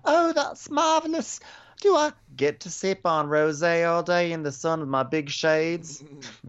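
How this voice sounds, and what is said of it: Put-on Southern accent. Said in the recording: “She like slipped into like a southern accent.”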